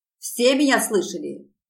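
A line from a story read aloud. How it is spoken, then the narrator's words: Barking. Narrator (Russian): рявкнул он напоследок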